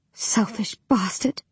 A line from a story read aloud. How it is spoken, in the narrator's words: I whisper